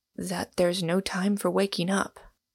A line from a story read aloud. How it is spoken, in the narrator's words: said Inglewood in a low voice